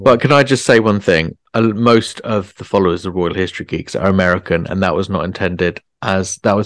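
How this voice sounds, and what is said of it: Usual voice. Nothing is said of it.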